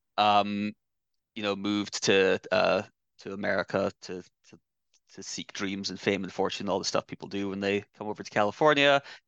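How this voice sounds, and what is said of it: Slight Scottish accent. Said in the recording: “I used to live in Scotland. That's where I was born. If there's a slight hint of an accent, that's where that's coming from.”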